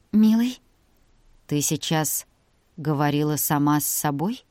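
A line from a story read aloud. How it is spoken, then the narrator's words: Slow question from lion. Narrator (Russian): медленно спросил лев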